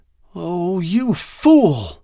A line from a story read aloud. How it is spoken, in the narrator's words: said, her voice bitter